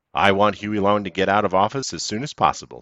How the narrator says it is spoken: said Sir

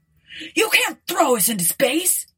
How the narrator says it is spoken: yelled Ford

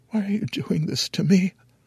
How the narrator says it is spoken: I whimper

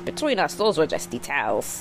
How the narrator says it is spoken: Celeste laughed and said

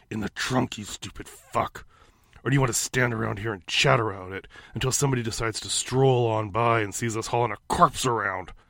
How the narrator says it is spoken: Clown hissed

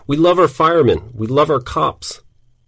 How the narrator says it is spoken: Crowds of Greenwich villagers gathered on the sidewalks, clapped and cheered, yelled

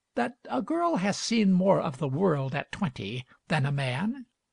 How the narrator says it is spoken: said gently

